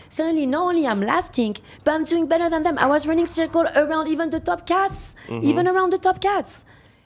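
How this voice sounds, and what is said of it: French accent. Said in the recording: “With a French accent”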